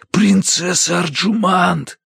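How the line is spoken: Desperate whisper. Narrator (Russian): звал отчаянным шепотом

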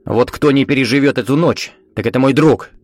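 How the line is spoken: Sharp. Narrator (Russian): Резко сказал он

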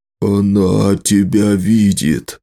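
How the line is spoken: Hoarse whisper. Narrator (Russian): хрипло прошептал Нола

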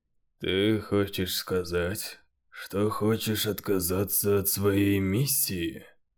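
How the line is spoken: Calm question. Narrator (Russian): спокойно спросил Эндрю

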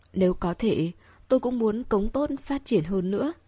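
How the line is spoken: Heavy sigh, muttering. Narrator (Vietnamese): Tộc trưởng Vương thở dài nặng nề, tự lẩm bẩm

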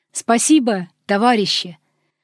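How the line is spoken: Firm shout. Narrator (Russian): кричу неожиданно очень твердым голосом

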